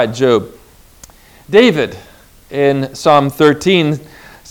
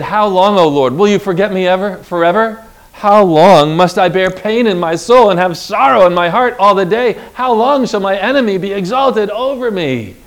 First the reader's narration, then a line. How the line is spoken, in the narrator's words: cried